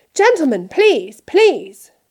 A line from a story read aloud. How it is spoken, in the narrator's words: cried the assistant